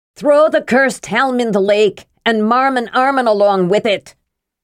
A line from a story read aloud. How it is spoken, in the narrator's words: one voice called out